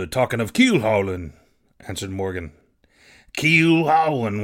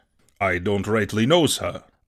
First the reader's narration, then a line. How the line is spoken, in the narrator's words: answered Morgan